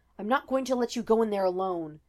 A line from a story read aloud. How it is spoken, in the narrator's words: The dragon snarled